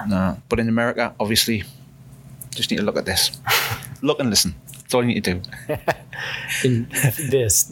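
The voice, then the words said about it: Strong Newcastle English accent. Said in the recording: “luxurious, velvety accent ... I'm from Newcastle. ... In the northeast of England. ... Where we have a strong British accent. ... a proper, smooth, brown English. ... in the UK, it's not seen as smooth. It's seen as really rough.”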